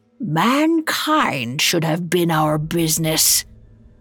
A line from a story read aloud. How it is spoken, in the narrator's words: growled